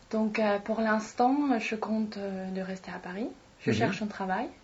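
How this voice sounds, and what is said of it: Slight foreign accent. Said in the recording (French): “vous avez un petit accent”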